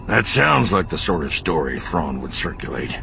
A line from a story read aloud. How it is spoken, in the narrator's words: Bel Iblis growled